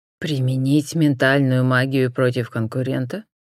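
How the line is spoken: Calm clarifying question. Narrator (Russian): спокойно уточнил отец

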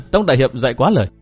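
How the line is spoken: Smiling reply. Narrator (Vietnamese): Đinh Phượng mỉm cười

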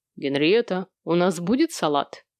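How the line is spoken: Odd, fatherly tone. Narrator (Russian): Обратился он к жене этаким чудным, несколько отеческим тоном

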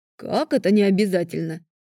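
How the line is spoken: Sincerely indignant dragon. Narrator (Russian): искренне возмутился дракон

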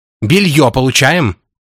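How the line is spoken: Conductor yelling. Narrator (Russian): орала в тамбуре проводница

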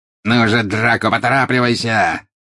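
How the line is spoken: Angry exclamation. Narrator (Russian): сердито воскликнул жестоколицый

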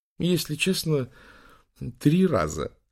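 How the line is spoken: Laughing. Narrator (Russian): рассмеялся Бенья

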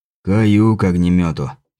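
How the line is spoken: Hoarse, coughing fit. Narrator (Russian): прохрипел он, зайдясь в приступе кашля

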